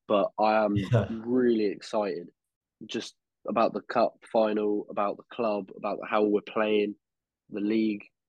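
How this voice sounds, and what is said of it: Hoarse voice from a cold. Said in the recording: “I'm recovering from a fucking cold again. So my voice is a bit fucked”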